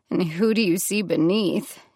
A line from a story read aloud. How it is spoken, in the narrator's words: She asked, her voice verging on sarcasm